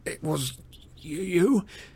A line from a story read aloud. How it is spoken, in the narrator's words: Harry said at last, his teeth chattering, his voice weaker than usual due to near strangulation